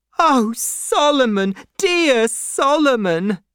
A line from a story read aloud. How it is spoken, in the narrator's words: cried Miss Pross